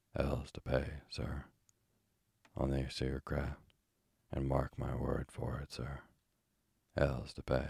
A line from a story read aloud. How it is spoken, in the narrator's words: The old fellow, he said in an undertone